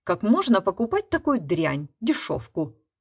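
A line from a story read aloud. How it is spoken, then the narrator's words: Spiteful. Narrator (Russian): злобно проговорила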